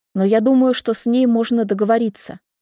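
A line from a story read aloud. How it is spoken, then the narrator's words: Plain. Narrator (Russian): говорит Люся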